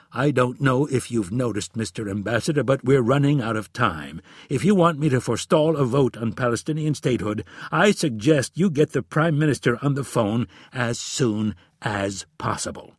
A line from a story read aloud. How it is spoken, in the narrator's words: The president testily replied